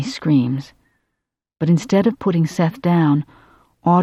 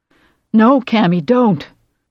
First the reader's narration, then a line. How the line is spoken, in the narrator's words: Johnny cries